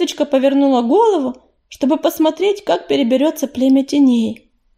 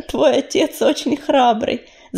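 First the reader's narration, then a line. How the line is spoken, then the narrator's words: Laughing. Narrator (Russian): засмеялась Медуница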